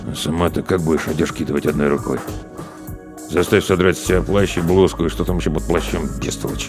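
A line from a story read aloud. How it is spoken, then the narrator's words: Muttered behind hand. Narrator (Russian): Соловейка буркнул, прикрываясь ладонью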